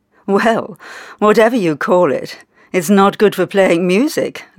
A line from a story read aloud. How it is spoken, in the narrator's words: laughed a woman